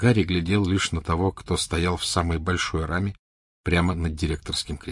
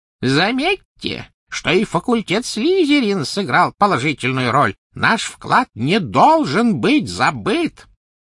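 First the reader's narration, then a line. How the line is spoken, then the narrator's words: Thin high-pitched call. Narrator (Russian): Финиас Найджелус взывал своим тонким высоким голосом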